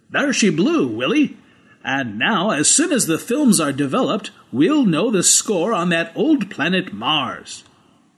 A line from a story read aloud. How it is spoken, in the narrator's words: Raj Everett said triumphantly